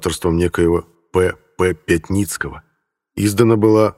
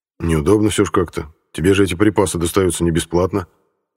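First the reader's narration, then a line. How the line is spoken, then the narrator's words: Plain. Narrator (Russian): сказал я Кузьмичу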